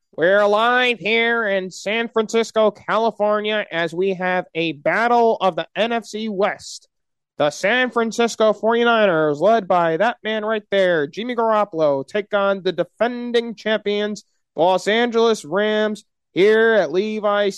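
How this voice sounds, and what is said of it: Sports announcer impression. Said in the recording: “my Joe Buck impersonation”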